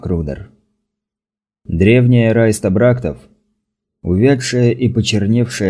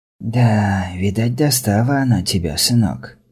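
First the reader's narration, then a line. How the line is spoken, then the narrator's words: Whispered question. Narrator (Russian): шепотом спросила Райста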